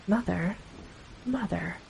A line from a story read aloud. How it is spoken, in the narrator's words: Gregor said gently